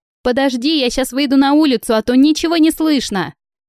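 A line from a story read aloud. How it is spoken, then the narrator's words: Shouting. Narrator (Russian): прокричала Светка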